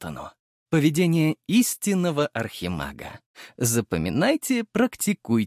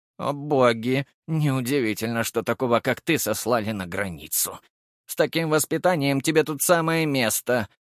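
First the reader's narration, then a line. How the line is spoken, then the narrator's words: Gruff muttering. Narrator (Russian): буркнула повариха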